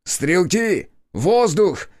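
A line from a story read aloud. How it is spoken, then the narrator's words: Shouting. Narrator (Russian): крикнул я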